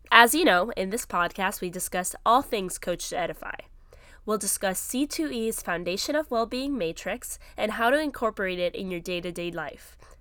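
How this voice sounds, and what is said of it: Slightly congested, cold-affected voice. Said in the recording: “I have a little bit of a cold”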